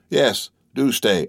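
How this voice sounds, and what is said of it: Tremulous, shaky voice. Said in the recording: “in a tremulous voice.”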